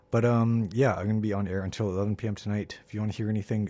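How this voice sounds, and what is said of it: Voice changed by a cold. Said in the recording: “pardon my voice, it's a little bit different this week. I'm kind of under the weather, you know, battling a cold, but that explains the different voice that you're hearing this evening”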